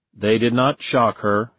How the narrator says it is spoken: he said

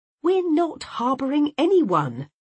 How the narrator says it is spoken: I said indignantly

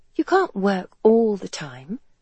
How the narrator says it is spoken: Helen had told her in a gentle but resolute tone

